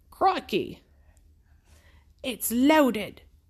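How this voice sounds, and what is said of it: Attempted Australian accent. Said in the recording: “I can't do a Scottish accent. ... how do I do my Australian accent?”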